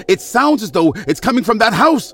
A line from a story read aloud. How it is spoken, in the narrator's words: the count shouted